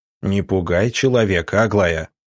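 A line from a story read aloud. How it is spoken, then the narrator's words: Stern. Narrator (Russian): строго сказал доктор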